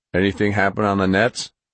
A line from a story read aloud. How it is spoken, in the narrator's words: Fitch asked